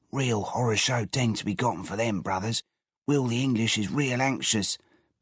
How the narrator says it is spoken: Georgie whispered

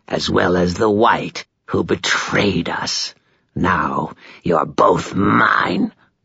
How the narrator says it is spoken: the vampire rasped

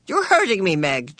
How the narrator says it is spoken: Charles said sharply

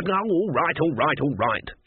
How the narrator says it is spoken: she snapped

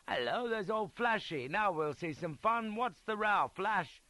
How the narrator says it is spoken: someone called out

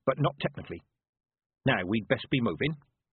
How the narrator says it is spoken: said Granny Weatherwax, and added quickly

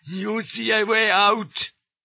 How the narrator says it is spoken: quavers he

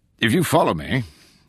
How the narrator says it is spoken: said in a cheery voice

